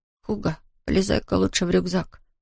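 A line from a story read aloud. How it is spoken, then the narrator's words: Whispered. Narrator (Russian): шепнул он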